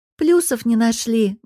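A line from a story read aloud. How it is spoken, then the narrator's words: Sad snort. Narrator (Russian): грустно хмыкаю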